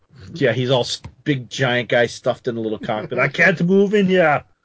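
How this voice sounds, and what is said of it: Poor imitation of another person's voice. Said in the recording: “worst Arnold impression”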